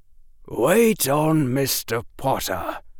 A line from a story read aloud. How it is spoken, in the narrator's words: Professor Quirrell said coldly